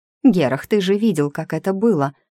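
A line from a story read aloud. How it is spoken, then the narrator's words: Exclamation. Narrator (Russian): воскликнула она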